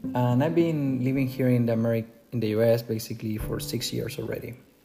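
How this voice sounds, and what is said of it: Chilean Spanish accent. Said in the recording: “originally, I'm not from the US, I'm from Chile, South America. You can tell by my accent.”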